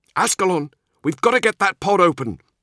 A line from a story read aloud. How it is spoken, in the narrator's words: he shouted